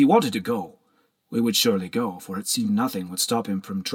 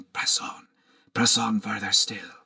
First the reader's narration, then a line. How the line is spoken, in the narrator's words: the devil on Derek's shoulder, whispering